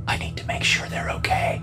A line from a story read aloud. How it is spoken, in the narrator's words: she whispered